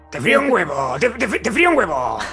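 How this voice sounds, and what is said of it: Crude imitation of a character's voice. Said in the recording (Spanish): “es una burda imitación de la gran voz de Herminia”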